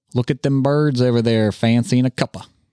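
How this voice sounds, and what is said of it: Poor British accent, sounds hillbilly. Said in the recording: “That wasn't an English British accent. ... That was a hillbilly accent trying to speak British.”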